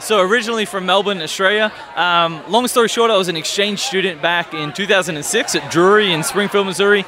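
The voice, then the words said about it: Slight mixed Australian-American accent. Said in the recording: “You have a slight accent. You know, it's not very Midwestern ... my accent's somewhere between Australia and America. I'm in like limbo”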